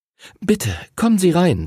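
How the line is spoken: Mother, trembling voice. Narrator (German): sagte Henrys Mutter mit zittriger Stimme

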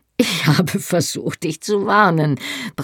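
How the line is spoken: Gasping. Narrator (German): brachte er japsend heraus

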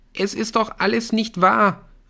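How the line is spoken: Calling. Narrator (German): rief

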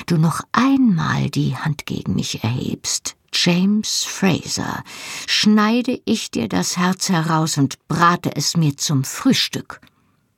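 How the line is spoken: Hissed through teeth. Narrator (German): zischte ich durch die Zähne

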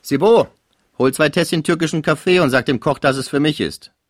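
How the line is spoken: Called out. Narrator (German): rief

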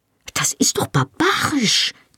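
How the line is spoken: Angry hiss. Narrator (German): zischte aufgebracht

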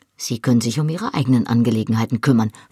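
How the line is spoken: Nervous hissing snap. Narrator (German): fauchte ich, und der Schweiß lief mir hinter den Ohren entlang

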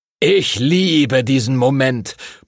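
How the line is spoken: Blustered loudly. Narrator (German): polterte Master Duncan

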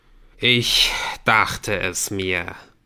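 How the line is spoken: Sighing. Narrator (German): seufzt er

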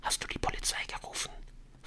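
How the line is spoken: Whisper. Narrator (German): flüsterte er in Adrians Richtung

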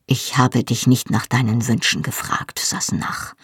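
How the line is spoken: Dangerously quiet voice. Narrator (German): fuhr mit gefährlich leiser Stimme fort

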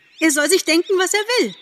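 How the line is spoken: Calling, then crying out. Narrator (German): rief und schrie wieder auf

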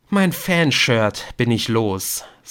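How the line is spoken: Sighing. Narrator (German): seufzte er

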